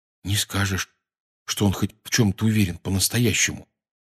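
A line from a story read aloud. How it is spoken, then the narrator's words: Quiet. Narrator (Russian): тихонько сказал Рон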